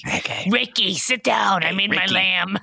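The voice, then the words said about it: Raspy put-on Swedish accent. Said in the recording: “It's my Swedish accent ... Syrian Swedish is raspy”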